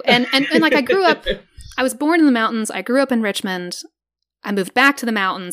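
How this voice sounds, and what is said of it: Southern US accent. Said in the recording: “Southern accent... my natural accent... Richmond's accent is not as thick as the mountain accent”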